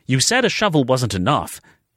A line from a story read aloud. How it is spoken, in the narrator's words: she snapped